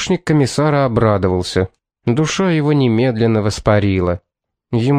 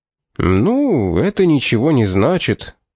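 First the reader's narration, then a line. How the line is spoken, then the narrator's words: Mumbling, breaking off. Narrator (Russian): забормотал он и осекся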